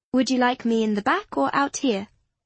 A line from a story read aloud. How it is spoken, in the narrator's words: Clara asked sweetly